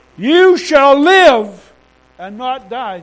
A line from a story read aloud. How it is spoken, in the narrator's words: Jill shouted